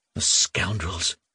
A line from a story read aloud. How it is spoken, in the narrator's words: Nerzhin sighed, baring his teeth